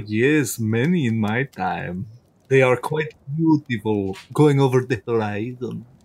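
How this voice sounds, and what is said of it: Funny Transylvanian-style character voice. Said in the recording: “you got a funny voice, Mister. Where are you from? ... I am from Fantasy Transylvania”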